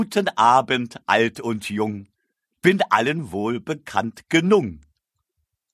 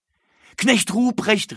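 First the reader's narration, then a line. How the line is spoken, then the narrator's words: Calling out. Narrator (German): rief es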